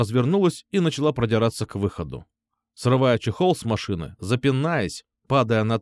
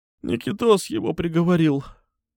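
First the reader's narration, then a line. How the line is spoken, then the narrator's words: Sighing. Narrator (Russian): вздохнула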